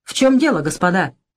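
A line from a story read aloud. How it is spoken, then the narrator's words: Angry question. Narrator (Russian): сердито спросил Василий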